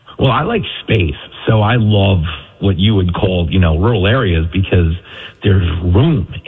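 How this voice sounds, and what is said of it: New York accent. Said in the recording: “In New York ... with my accent, everybody thinks I'm in the witness protection program”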